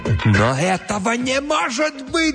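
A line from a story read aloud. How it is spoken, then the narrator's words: Shouting. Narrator (Russian): закричал Джомфри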